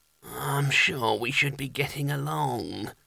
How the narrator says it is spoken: muttered without much conviction

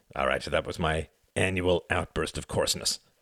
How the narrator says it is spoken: grunted Quentin

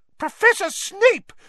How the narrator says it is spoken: shrieked Madame Pomfrey

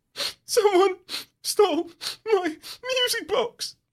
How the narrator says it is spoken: He whimpers, tears stream down his cheeks

